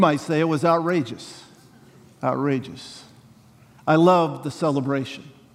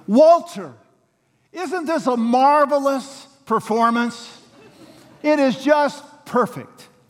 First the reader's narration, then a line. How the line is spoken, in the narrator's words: Millie Swanson, who is hard of hearing and hasn't heard any of the lines, shouts to her husband so everyone can hear